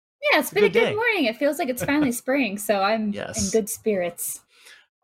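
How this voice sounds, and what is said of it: Chipper, upbeat voice. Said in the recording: “I can hear the chipperness in your voice.”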